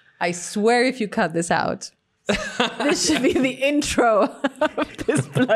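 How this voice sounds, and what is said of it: Usual voice. Nothing is said of it.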